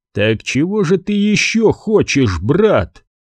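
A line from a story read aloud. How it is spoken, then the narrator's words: Tense question. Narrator (Russian): спросил напряженным голосом Кьярлскар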